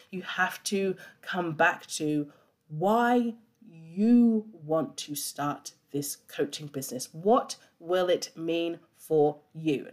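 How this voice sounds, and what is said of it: Slow, deliberate speech. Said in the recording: “I'm saying that slowly and really breaking it down”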